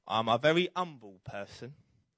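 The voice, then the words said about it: Put-on London accent. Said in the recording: “Do you like the London accent there?”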